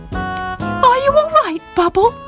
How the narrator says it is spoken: squeaked asked anxiously

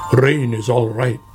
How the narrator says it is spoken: grumbled Badger

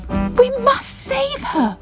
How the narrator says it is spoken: cried Bubble

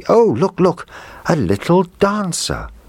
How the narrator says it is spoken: the little girl cried out happily

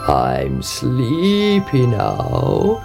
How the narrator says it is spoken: he croaked

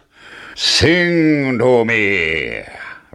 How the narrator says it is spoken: roared the giant

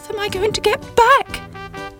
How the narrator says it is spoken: cried Sybil

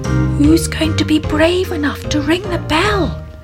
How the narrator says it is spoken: whispered Susie

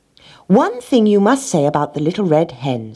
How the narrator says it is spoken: said the rat

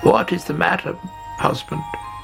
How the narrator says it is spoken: She croaked

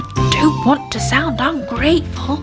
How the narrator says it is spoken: he whispered to Granny Ted

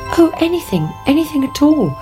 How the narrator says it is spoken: cried the princess

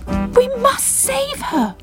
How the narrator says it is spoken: cried Bubble

